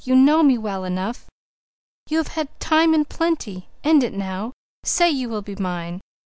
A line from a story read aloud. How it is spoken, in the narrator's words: he pleaded